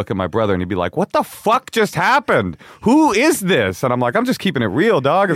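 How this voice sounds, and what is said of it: Usual voice. Nothing is said of it.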